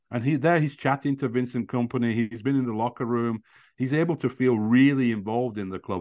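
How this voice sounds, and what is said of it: Burnley English accent. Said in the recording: “people might hear your accent and hear that you're from Burnley”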